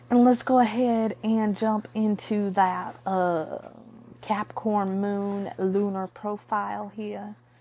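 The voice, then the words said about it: Poorly done put-on accent. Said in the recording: “I know that's a very poor, like, accent”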